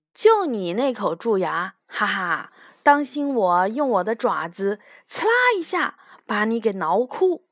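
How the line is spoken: Teeth-gritting snarl. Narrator (Chinese): 虎斑猫咬牙切齿地说

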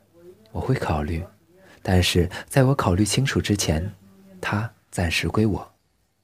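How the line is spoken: Wry laughing. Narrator (Chinese): 林小兵歪着嘴笑道

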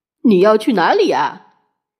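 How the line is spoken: Smiling question. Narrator (Chinese): 快乐先生笑着问他

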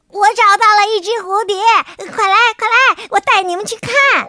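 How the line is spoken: Excited happy shout. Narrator (Chinese): 瞌睡虫兴冲冲的，开心的大喊着

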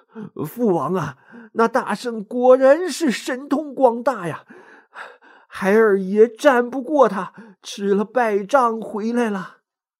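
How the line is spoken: Breathless, panting. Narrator (Chinese): 木吒气喘吁吁的对托塔天王说

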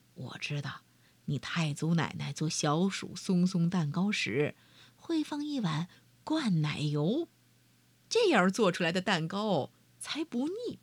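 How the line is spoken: Low voice. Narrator (Chinese): 马尔丹低声说

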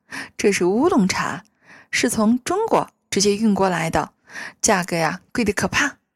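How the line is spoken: Fake smile. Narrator (Chinese): 阿加莎假笑道

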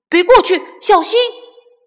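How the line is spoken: Shouting. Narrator (Chinese): 小胖墩喊道

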